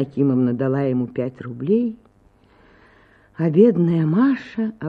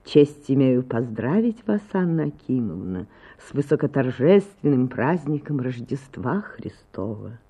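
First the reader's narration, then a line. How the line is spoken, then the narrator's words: Pleasant honeyed voice. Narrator (Russian): сказал своим приятным медовым голосом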